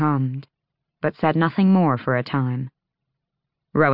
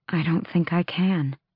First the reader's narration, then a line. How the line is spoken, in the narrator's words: Aelin breathed